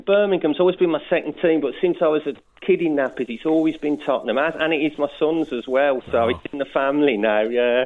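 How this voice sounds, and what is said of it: Midlands English accent. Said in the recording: “You're from the Midlands by the sound of it... I've never lost the accent.”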